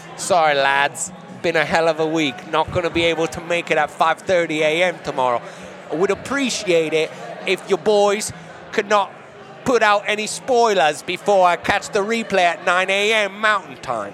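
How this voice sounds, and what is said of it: Put-on British accent, somewhat Cockney. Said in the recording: “a little more Cockney than Leeds on my accent there ... that's the most consistent I've been able to maintain a ... British accent.”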